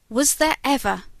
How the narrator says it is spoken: he cried

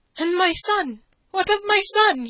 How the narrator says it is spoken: he cried out

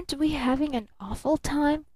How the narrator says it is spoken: she whispered

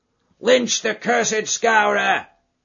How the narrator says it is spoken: they cried

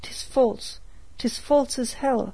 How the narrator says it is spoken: he cried

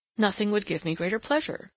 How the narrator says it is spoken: said Kara a little eagerly

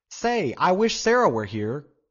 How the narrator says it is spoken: cried Joe Welling

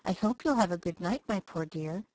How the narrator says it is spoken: whispering tenderly

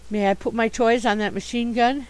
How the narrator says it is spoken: asked Father Christmas timidly

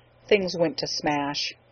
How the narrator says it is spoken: he said quietly and sadly

